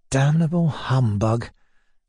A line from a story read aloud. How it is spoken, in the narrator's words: Mizinchikov whispered beside me